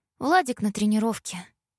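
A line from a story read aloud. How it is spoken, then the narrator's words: Sad sigh. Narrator (Russian): печально вздохнула Тамара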